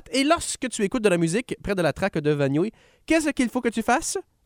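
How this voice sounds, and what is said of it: Fast Quebec Lower St. Lawrence accent. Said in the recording (French): “Je parle un peu comme cœur de pirate, mais vite. Et avec un accent encore plus du bas du fleuve.”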